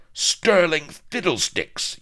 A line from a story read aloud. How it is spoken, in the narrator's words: yelped Pepys